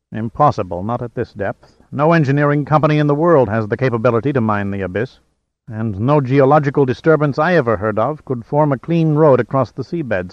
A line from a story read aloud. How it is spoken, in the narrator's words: stated Salazar firmly